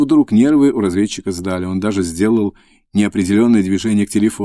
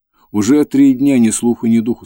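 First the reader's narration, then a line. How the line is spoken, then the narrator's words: Plain. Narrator (Russian): сказала Татьяна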